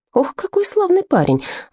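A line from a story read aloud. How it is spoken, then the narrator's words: Excited whisper. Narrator (Russian): взволнованно прошептала она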